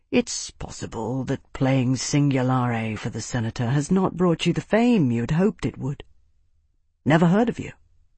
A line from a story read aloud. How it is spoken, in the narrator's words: Tavi said in a congenial murmur